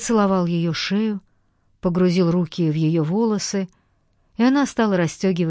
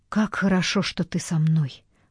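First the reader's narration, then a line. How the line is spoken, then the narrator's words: Whispered. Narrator (Russian): прошептала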